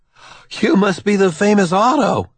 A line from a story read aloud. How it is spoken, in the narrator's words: Waterhouse exclaims